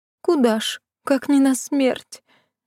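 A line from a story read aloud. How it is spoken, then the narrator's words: Silent sobbing. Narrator (Russian): беззвучно всхлипывала Лида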